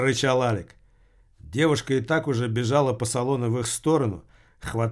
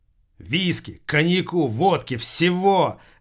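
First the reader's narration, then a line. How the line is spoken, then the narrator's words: Shouted out. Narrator (Russian): выкрикнул Алик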